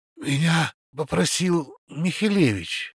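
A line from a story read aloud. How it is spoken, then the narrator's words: Breathy exhale. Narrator (Russian): выдохнул Славик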